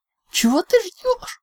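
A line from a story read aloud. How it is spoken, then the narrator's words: Cat's hysterical shriek. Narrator (Russian): истерически взвизгнула кошка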